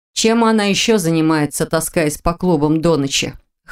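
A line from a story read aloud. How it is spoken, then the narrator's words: Scoffing snort. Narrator (Russian): хмыкнула Анна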